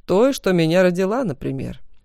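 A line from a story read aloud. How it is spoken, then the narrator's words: Sarcastic reply. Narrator (Russian): язвительно отозвался другой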